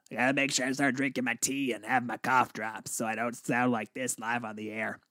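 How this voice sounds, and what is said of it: Slightly raspy, strained voice. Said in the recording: “get my throat kind of back to normal, getting a little raspy here”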